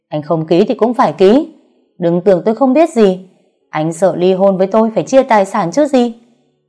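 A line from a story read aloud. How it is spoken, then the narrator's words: Furious screaming. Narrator (Vietnamese): sừng cổ gào lên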